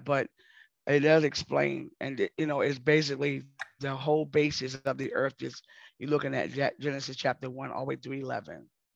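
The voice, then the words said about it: Hoarse voice. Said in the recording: “I'm getting hoarse.”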